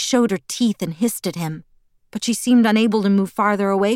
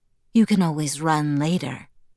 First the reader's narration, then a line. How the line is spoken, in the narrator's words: Edward purred